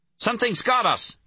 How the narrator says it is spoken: Louis shouted

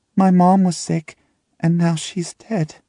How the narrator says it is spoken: he says, and the little quaver in his voice

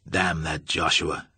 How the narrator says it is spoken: he muttered

